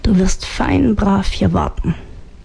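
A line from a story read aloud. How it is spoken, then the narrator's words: Murmured. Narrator (German): raunte sie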